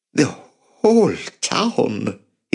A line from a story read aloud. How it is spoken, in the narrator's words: he said, his voice quivering